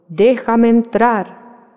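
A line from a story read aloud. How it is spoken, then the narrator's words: Wolf shouting. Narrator (Spanish): gritó el lobo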